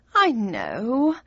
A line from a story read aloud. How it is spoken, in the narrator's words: she sighed